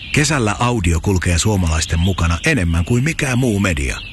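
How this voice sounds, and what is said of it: Whispering. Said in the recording (Finnish): “Psst. ... kesäkuiskaaja”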